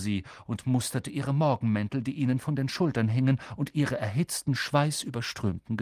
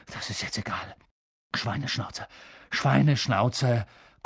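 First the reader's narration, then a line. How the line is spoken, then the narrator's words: Panting. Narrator (German): keuchte Harry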